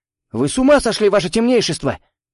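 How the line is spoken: Yelling. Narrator (Russian): заорал он, едва услышав, что Бажена предлагает ему проникнуть в университет Люцифлюсов

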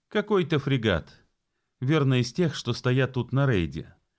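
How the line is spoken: Carefree. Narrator (Russian): беззаботно сказал Боб

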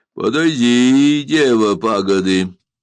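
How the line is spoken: Gloomy voice. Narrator (Russian): сказал Сандакан мрачным голосом

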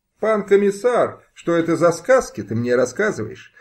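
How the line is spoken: Joyless laugh. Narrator (Russian): Невесело рассмеялся Богдан

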